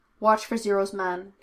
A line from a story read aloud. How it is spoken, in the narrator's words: she instructed curtly